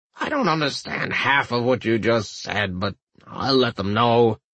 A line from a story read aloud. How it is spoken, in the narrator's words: the old man said wearily